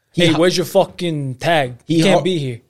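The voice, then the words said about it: Put-on Guido Italian-American accent. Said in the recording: “Why do you always go to a Guido accent?”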